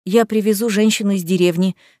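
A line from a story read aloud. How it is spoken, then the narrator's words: Hurried. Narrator (Russian): сказал торопливо Томас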